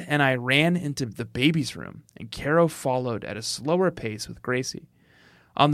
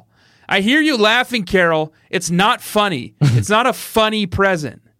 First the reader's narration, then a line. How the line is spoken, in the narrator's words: Jeff yelled down from the hall